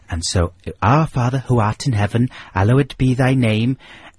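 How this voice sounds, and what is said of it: Put-on Welsh accent. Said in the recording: “mainly in a Welsh accent,”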